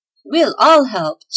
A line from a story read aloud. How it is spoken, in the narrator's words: shouted the elves